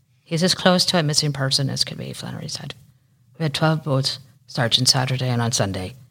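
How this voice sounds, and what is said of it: Put-on Irish accent. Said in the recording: “Let me do it in an Irish accent.”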